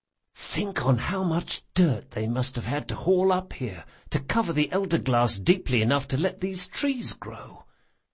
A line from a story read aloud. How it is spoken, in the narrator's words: whispered Locke